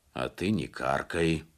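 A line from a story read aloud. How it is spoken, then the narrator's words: Grumbled. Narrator (Russian): пробурчал капитан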